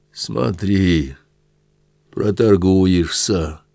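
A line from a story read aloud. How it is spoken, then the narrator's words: Sarcastic hoarse rasp. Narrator (Russian): язвительно просипел Сотников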